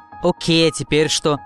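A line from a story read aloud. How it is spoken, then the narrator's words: Plain. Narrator (Russian): спросила Dash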